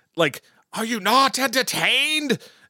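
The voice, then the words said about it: Bad Russell Crowe impression. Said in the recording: “that was my really bad Russell Crowe voice or impersonation”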